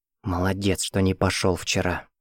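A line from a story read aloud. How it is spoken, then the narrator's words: Whisper. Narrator (Russian): зашептал он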